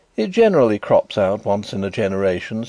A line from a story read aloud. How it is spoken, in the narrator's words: said my brother